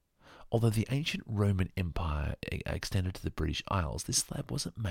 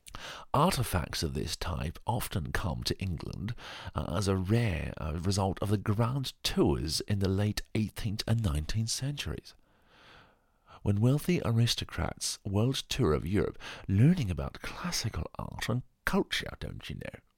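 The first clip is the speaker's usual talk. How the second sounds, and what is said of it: Put-on English accent. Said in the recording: “I'm going to try and do another English accent now”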